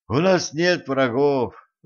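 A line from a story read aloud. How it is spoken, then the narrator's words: Sighing. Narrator (Russian): вздохнул Николай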